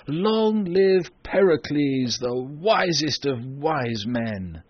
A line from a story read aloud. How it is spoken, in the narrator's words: The people cheered loudly at this and said